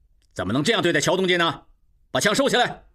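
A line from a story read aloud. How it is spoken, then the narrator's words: Angry. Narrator (Chinese): 吴炳仁怒视众骑兵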